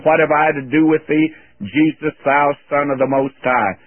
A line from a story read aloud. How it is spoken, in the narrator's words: He cried with a loud voice